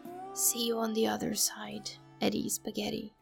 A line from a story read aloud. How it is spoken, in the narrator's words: whispered